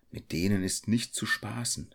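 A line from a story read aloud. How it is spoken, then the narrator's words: Hunter whispering. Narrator (German): flüsterte der Jäger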